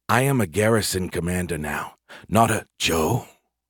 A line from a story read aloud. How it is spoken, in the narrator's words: whispered back